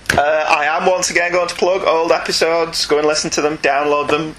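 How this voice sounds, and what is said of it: Northern English accent. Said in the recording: “with a northern accent.”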